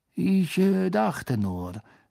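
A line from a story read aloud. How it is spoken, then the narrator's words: Forced calm voice. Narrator (German): sagte Snape mit gezwungen ruhiger Stimme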